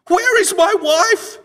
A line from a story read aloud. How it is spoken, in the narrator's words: he screamed